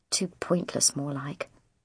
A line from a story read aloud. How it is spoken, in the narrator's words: Mum said under her breath